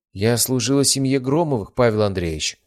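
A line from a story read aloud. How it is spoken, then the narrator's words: Plain. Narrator (Russian): ответила она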